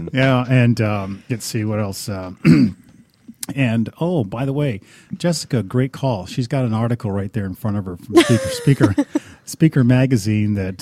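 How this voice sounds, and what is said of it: Smooth, mesmerizing radio voice. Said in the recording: “You have that radio voice. I get mesmerized by it.”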